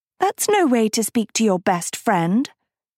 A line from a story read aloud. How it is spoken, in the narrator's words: Sophie cooed